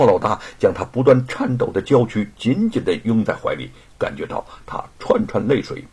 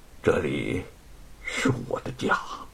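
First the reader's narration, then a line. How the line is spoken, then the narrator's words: Trembling voice. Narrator (Chinese): 白雪燕……声音颤抖着说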